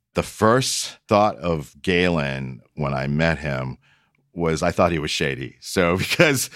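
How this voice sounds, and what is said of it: Usual voice. Nothing is said of it.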